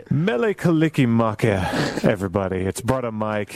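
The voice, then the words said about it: Put-on public radio DJ voice. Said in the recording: “That's my public radio voice.”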